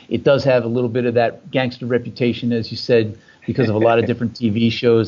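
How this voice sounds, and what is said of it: Slight New Jersey accent. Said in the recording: “I could just actually hear a hint of the accent too, which is kind of nice. I actually like it. It's got a nice ring to it.”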